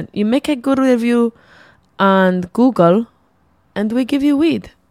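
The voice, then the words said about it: Terrible put-on Greek accent. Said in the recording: “This is my terrible Greek accent.”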